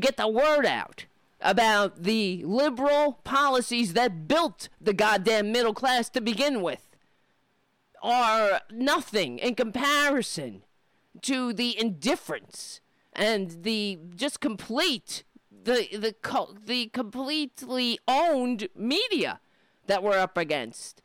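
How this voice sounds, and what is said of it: Angry yelling. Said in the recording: “I'm sorry I'm yelling. I know I'm yelling. ... This show is just like yelling. ... some fucking bitch yelling in your ears.”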